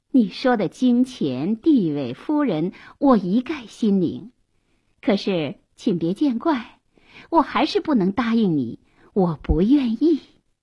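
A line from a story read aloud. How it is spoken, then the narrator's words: Indifferent with a smile. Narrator (Chinese): 淡漠的一笑说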